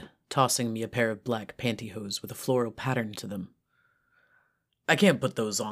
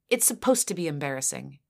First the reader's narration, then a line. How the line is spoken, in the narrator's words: she snapped